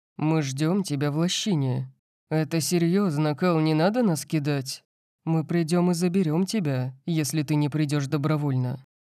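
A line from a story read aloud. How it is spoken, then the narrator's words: Quiet. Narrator (Russian): тихо сказал Макс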